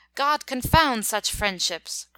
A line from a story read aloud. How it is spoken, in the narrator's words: cried Bucar, following his flying troops with nimble speed